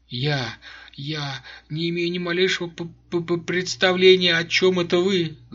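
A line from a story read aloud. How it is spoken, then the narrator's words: Stuttering mumble. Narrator (Russian): заикаясь, пробормотала она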